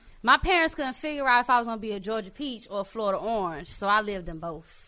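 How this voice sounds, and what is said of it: Southern urban American accent. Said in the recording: “Her accent is cute as fuck ... A hood accent.”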